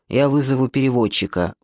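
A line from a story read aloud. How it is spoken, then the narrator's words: Grumbling. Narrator (Russian): буркнул Камышов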